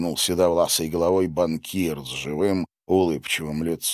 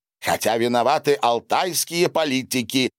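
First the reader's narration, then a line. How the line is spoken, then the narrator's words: Near shout, burly man. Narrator (Russian): почти выкрикнул крупнотелый хозяин скотобойни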